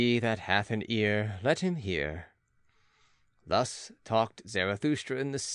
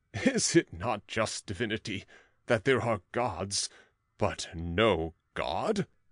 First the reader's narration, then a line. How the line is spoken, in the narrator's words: the gods laughed and exclaimed